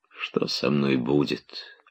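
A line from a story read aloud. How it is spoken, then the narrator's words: Glum mutter to herself. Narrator (Russian): уныло почти про себя прибавила она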